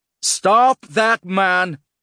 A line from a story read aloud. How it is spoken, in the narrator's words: Lul bellowed